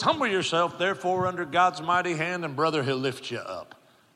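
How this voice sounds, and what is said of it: Country Kentucky pastor impression. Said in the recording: “like a country Kentucky pastor ... that impersonation”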